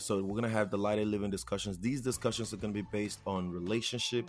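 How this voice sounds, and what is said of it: Nigerian accent. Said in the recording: “if you haven't heard it in my accent already, I am Nigerian”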